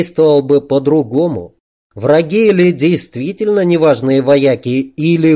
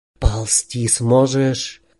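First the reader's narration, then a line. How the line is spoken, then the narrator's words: Whisper. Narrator (Russian): прошептал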